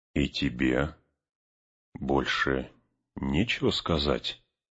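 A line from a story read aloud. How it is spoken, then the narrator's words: Gloomy frowning question. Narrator (Russian): мрачно нахмурившись, спросил гондорца Арагорн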